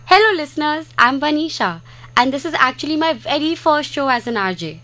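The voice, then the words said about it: Excited, energetic speaking. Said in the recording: “if I sound excited, that's because I am.”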